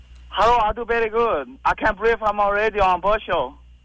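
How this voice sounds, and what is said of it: Fake, unconvincing Asian accent. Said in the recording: “your accent is fake ... That is a fake accent ... It was supposed to be an Asian accent. ... Well, your Korean side sucks.”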